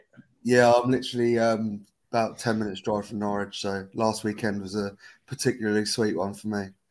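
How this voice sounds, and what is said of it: Norfolk English accent. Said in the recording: “the accent, I think you live down in Norfolk”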